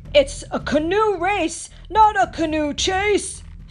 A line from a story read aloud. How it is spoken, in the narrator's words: shouted Lucala